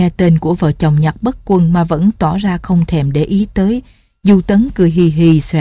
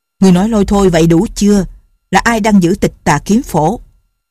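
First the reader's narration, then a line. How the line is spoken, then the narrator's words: Shouting. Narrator (Vietnamese): Trương phu nhân quát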